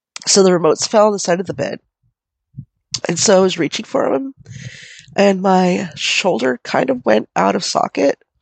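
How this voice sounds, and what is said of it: Sick, fading voice with coughing. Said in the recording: “here comes a cough again ... my voice is going away now. And talking is making me cough ... I'm just sick”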